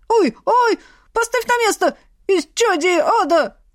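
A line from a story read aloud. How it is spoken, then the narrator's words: Wailing skull. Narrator (Russian): вопил череп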